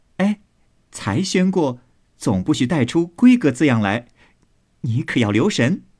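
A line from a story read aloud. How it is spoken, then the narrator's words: Laughing. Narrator (Chinese): 宝玉笑道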